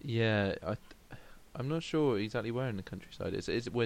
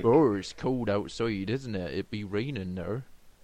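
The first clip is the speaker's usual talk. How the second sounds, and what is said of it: Put-on English countryside accent. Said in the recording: “so you just did a countryside accent.”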